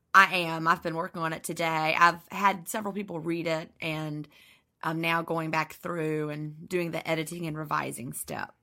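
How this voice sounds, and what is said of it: Scratchy voice. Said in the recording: “my voice is scratchy, because ... I do lots of talking.”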